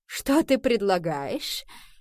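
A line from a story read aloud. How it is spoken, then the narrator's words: Mocking question, queen. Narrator (Russian): насмешливо спросила королева Куин у сэра Кормака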